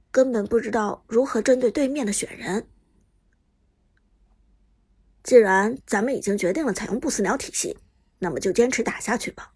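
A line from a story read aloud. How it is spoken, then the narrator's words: Low voice. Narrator (Chinese): 旺财低声说道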